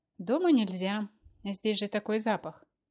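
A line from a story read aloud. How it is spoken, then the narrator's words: Explaining with a sigh. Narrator (Russian): объяснил Мефодий Сидорович и вздохнул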